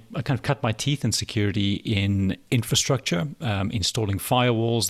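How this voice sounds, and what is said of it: Slight South African accent. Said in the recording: “You can maybe detect a slight South African accent there.”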